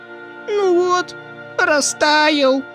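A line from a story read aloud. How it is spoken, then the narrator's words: Whining. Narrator (Russian): заскулил Тявка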